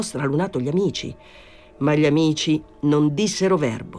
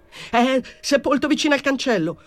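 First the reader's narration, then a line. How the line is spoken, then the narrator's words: Shouting. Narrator (Italian): urlò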